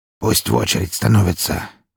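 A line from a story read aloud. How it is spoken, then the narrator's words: Hoarse reply. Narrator (Russian): хрипло отозвался он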